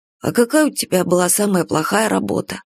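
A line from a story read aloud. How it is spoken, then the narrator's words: Sleepy boy mumbling. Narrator (Russian): Мальчишка, уже засыпая, пробормотал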